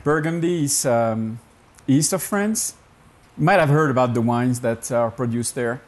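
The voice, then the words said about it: Non-American accent. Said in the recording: “you don't have an American accent”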